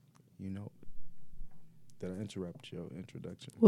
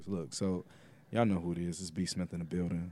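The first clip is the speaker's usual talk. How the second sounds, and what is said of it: Put-on deep voice. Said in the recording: “deep voice.”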